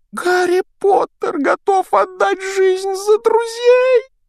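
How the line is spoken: Self-abasing exclamation. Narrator (Russian): воскликнул домовик, сознавая собственное ничтожество

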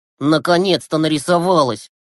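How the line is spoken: Displeased grumble. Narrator (Russian): недовольно проворчал Глеб

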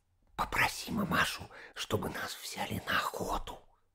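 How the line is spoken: Whispered. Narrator (Russian): сказала Катенька шепотом

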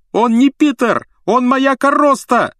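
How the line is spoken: Yelling. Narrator (Russian): завопил Рон

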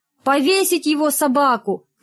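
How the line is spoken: Shout. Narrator (Russian): крикнул кто-то

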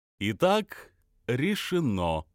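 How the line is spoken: Cheerful. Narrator (Russian): весело сказал Метки

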